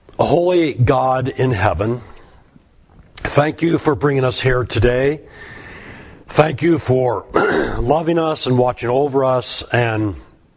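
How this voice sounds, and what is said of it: Slightly hoarse voice. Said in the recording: “my voice is a little hoarse ... Just a sinus infection”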